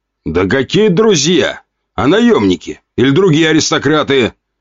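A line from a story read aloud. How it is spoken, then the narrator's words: Shout. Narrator (Russian): выкрикнул князь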